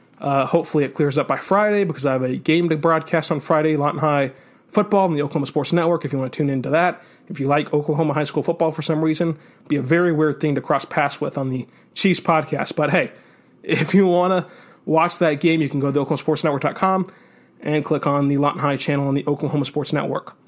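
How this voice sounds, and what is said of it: Sick, congested head-cold voice. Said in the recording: “I apologize for being sick, as you can probably tell in my voice. ... I just came down with a head cold.”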